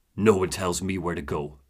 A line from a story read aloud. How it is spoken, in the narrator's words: Booker growls